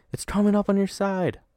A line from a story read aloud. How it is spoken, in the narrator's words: as my brother cried